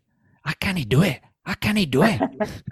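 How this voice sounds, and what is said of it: Put-on Scottish accent. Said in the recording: “There's my Scottish accent”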